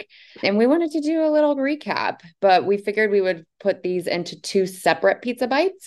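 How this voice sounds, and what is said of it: Tired, worn-out voice. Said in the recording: “As you can tell by my voice, I am all conferenced out”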